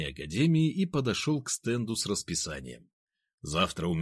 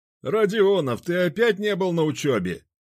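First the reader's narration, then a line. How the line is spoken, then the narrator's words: Loud. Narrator (Russian): громко сказал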